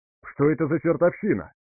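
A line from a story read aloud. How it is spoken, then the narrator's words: Exclamation. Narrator (Russian): воскликнул Максим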